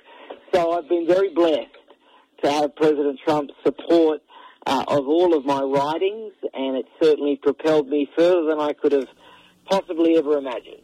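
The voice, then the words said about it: Australian accent. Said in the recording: “I'm glad that's an Australian accent ... I am a legal immigrant from Australia ... the accent never”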